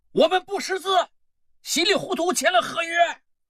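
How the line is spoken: Group shouting. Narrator (Chinese): 一群猪仔喊

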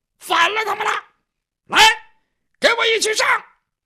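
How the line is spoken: Shouting. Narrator (Chinese): 李勇这功夫就喊上了

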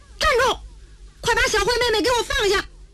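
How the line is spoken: Angry loud shout. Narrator (Chinese): 程志这火往上冒，大喊一声

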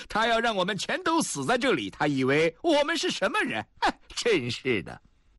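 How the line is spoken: Laughing loudly. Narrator (Chinese): 林祥雄也大笑着说

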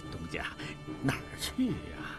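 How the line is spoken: Quiet laughing whisper. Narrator (Chinese): 潘大掌柜笑着悄声说

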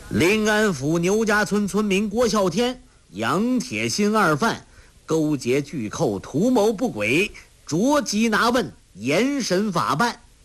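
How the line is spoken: Resigned, loud reading. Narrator (Chinese): 那武官无奈，大声读道

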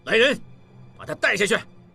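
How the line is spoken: Shout. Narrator (Chinese): 吴炳仁大喊

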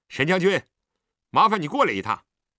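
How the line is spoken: Calling out. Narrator (Chinese): 李元芳叫了声

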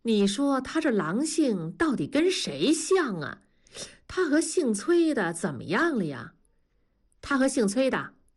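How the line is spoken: Laughing. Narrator (Chinese): 文丽笑了说

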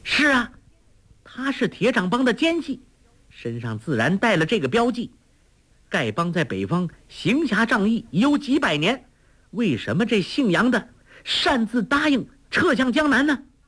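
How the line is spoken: Loud. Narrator (Chinese): 黄蓉大声说

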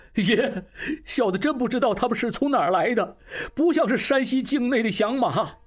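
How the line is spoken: Crying. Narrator (Chinese): 金宝哭道

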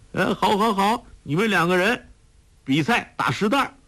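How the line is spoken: Woman's excited exclamation. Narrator (Chinese): 他夫人已经拍手叫起来

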